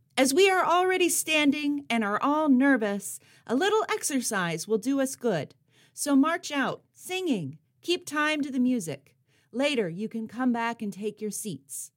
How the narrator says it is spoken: Quick on her toes, although her knees were trembling, she bellowed to the crowd

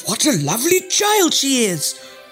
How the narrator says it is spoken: cried

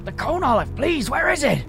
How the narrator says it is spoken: asked Carl frantically

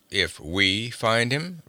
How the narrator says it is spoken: rumbled Conan

